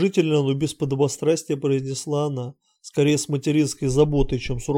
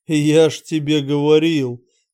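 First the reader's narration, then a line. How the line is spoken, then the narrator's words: Laughing. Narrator (Russian): Кранк захохотал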